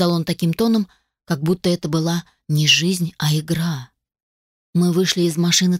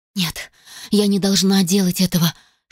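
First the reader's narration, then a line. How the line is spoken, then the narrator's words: Whispered under breath, disbelieving. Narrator (Russian): шептала я себе под нос, почти не веря, что нахожусь здесь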